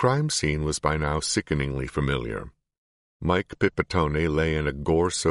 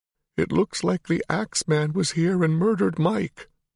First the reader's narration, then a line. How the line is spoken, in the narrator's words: wailed